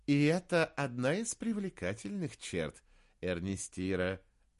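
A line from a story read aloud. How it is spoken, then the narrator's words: Priest laughing. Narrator (Russian): рассмеялся священник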